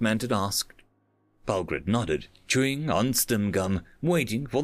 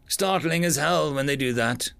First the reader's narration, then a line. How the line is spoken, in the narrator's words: the Black Manted chuckled